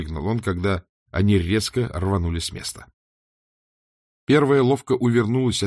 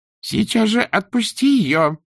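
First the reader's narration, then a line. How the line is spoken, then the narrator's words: Shouting. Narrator (Russian): закричала Дорин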